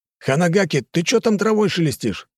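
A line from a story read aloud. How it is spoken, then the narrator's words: Someone shouting. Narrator (Russian): выкрикнул кто-то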